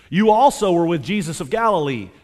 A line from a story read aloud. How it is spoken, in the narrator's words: said